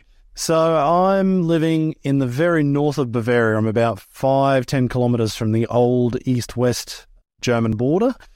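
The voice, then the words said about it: Australian accent. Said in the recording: “his accent sounds like he's Australian”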